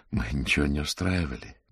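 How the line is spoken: Soft, gentle. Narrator (Russian): мягко сказал адвокат

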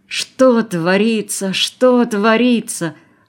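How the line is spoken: Groan, camp chief. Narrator (Russian): простонал начальник лагеря

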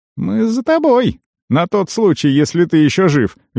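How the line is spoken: Cheerful teenager. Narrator (Russian): весело пояснил подросток

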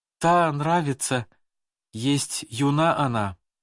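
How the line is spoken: Plain. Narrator (Russian): ответил я

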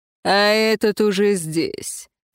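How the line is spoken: Snorting. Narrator (Russian): фыркнул император

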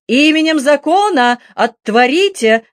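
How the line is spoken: Shouted. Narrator (Russian): крикнул он

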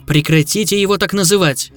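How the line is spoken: Snapping back. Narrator (Russian): огрызнулась я

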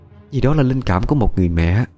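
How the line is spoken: Soft quiet speech. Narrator (Vietnamese): cô quay lại nói khẽ

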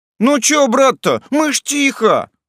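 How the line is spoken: Exclaimed. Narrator (Russian): воскликнул Сёма

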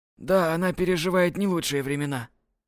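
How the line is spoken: Sadly. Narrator (Russian): грустно произнёс Фредерик

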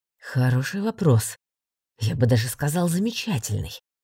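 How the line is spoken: Hissed. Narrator (Russian): прошипел преподаватель

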